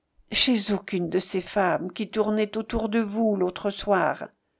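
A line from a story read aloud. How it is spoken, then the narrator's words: Very quiet. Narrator (French): tout bas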